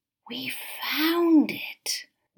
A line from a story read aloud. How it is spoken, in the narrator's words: whispered Elodie in awe